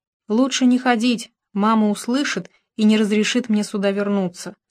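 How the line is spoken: Plain. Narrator (Russian): сказала Дейзи

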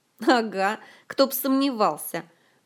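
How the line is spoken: Mocking snort from fog. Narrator (Russian): Насмешливо фыркнул из тумана еще не проявившийся Толик

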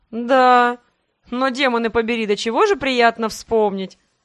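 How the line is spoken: Laughing. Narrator (Russian): Засмеялся император

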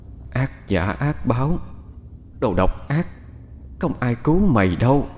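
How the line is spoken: Angry whisper. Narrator (Vietnamese): đôi mắt đỏ ngầu vằn lên những tia giận dữ, miệng thì thầm

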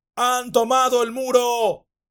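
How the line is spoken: Men shouting. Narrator (Spanish): gritaron los hombres

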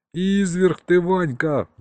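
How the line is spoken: Howling. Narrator (Russian): взвыл Саня

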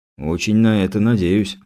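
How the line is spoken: Sighing. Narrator (Russian): вздохнул Кузнецов

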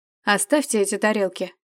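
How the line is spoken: Plain. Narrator (Russian): сказал Трейс

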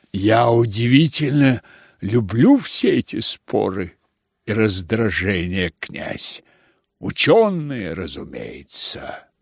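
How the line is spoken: Muttered in rapturous impatience. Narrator (Russian): пробормотал между тем Келлер, в решительном упоении и нетерпении

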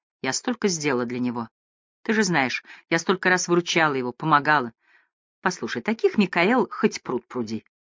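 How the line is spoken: Plain. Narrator (Russian): сказала ее подруга

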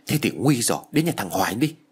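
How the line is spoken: Shout. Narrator (Vietnamese): Tôi hét lên rồi nói

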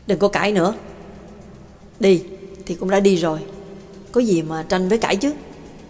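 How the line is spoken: Cold. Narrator (Vietnamese): Giọng nói lạnh lùng của bà Tàng

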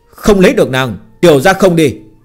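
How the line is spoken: Frightened loud shout. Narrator (Vietnamese): Phương Hành bị dọa, lớn tiếng hét lên

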